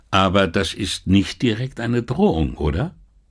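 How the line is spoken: Plain. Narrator (German): fragte er

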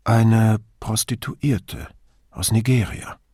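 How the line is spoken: Hesitant. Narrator (German): Zögernd fügte sie hinzu

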